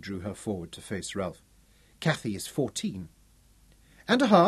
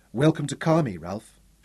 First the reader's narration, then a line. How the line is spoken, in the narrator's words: she said evenly